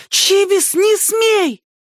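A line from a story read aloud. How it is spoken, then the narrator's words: Sudden shout. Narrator (Russian): Ринка вдруг закричала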